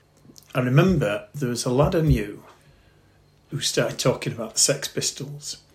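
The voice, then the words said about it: Bradford English accent. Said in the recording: “I was living in Bradford, hence my accent.”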